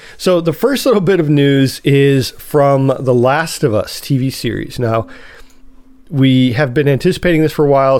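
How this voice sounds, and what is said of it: Nasal, congested voice. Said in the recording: “I have a little bit of a cold, so you have to forgive my uh, my nasally voice this time”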